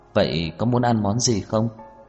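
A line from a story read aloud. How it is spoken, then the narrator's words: Smiling. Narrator (Vietnamese): Trần Mạn Hồng mỉm cười nói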